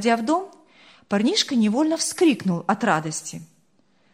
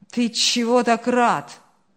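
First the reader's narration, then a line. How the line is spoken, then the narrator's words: Grumbling. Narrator (Russian): пробурчал Ильяс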